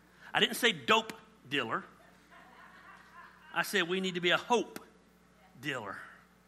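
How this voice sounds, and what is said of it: Southern American accent. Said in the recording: “here lately, my dialect has become more southern, and you keep getting confused about words I say”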